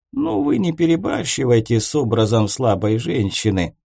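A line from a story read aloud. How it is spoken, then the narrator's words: Grumbling wizard. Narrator (Russian): проворчал волшебник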